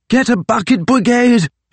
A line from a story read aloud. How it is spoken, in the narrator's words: shouted Fitzjames from somewhere up ahead of him in the smoke